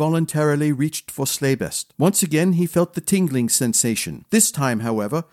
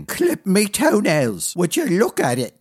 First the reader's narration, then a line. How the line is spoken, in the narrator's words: croaked Melody, staring in awe at the blade